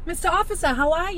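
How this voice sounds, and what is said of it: Exaggerated Boston accent. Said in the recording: “playing on that Boston accent.”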